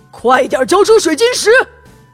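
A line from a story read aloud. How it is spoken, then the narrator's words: Stern loud shout. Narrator (Chinese): 安曼达厉声高喊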